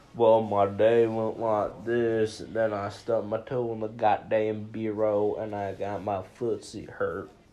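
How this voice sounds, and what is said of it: Mocking put-on Southern accent. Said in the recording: “Are you always going to use a Southern accent? ... Yeah, whenever I'm mocking anyone.”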